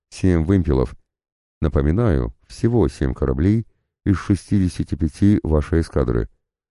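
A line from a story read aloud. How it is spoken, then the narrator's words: Calm correction. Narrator (Russian): спокойно поправил Суровцева граф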